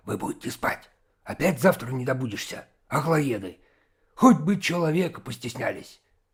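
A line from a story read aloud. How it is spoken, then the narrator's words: Angry hissing. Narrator (Russian): сердито шипел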